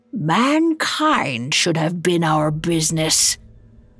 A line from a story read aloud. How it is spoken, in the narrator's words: growled